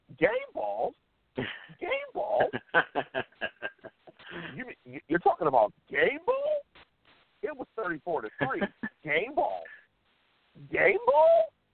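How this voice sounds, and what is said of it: Imitates another person's voice. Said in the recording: “my Jim Moore impression? ... kind of Jim Moore with the slash of Allen Iverson”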